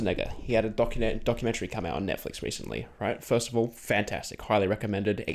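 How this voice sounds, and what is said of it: Usual voice. Nothing is said of it.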